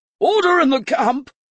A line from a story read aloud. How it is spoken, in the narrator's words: he bellowed